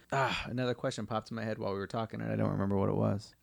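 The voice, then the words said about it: Rough, hoarse voice. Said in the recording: “I apologize for my voice, by the way, if it sounds a little rough. ... I did a lot of karaoke this weekend.”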